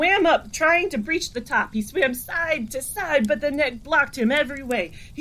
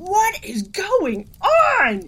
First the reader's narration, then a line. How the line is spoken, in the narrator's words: Carl screamed inside his head